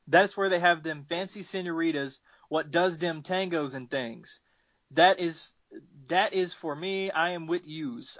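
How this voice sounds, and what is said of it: Attempted New Jersey accent. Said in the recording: “I suddenly got a weird accent. ... I am from the south, so I can't do it. I'm guessing it's a Jersey thing.”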